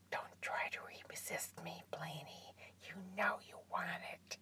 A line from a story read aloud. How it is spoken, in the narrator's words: whispered to his ear